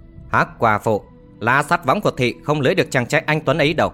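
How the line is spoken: Laughing loudly. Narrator (Vietnamese): Tây Môn Triều Ngọ nhướng mày cười to nói

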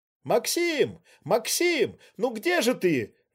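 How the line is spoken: Exclaiming, anxious calling. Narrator (Russian): воскликнула Рейна Пштиль

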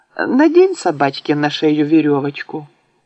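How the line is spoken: Gentle, affectionate. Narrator (Russian): ласково сказала мне тетя

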